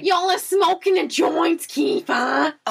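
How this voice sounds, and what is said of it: Very heavy accent, abrasive. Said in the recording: “she's also going to come in with her very heavy accent. ... It's going to be a little abrasive”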